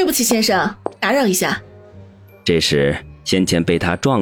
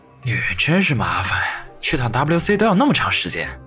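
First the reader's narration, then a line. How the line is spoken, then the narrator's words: Muttering to himself. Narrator (Chinese): 王宇……不禁嘟囔着自语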